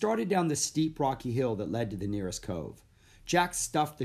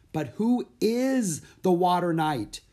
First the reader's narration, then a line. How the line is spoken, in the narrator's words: he yelled